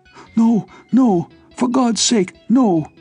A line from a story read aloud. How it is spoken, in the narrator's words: cried the prisoner shrilly